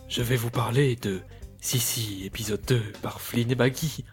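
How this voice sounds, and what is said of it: Deep, dark put-on voice. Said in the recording (French): “avec une voix grave, euh, euh, ténébreuse ... Avec une voix grave.”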